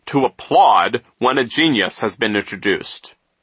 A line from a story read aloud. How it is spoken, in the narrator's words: he said sternly